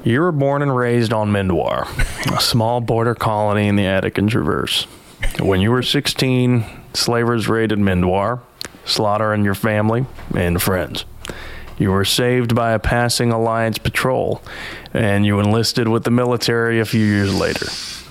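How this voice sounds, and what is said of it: Put-on Appalachian accent. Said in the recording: “an Appalachian accent, just don't move your upper lip when you speak”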